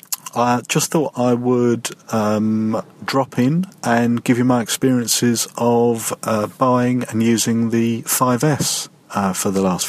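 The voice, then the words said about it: British English accent. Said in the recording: “I just love the UK accent”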